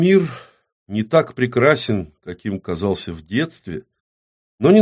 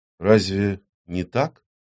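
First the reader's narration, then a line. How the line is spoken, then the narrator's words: Woman's quiet question. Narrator (Russian): тихо спросила женщина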